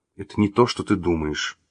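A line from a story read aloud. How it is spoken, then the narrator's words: Embarrassed mutter. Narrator (Russian): краснее пробормотал Василий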